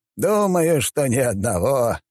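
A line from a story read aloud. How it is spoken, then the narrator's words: Short laugh. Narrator (Russian): хохотнул химеролог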